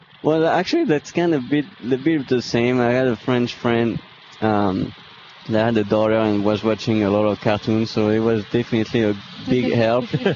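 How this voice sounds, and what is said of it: Noticeable foreign accent. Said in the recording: “if you didn't recognize the accent”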